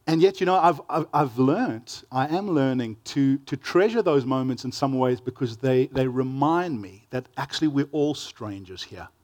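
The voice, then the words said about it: South African accent. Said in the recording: “I'm from South Africa ... my friends tease me about my accent, they say it makes me sound more clever than I really am”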